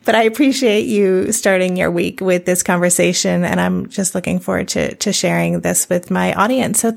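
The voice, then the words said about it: Croaky morning voice. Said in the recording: “My voice is a little croaky because you're the first person I've spoken to today”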